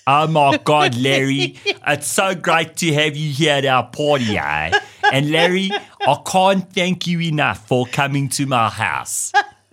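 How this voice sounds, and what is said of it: Exaggerated Johannesburg South African accent. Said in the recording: “it's so bad. But it's like such a caricature of like a Joburg ... It's like that. It's so bad.”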